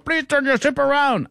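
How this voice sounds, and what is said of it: Put-on Indian accent. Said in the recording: “I don't know why that's an Indian accent”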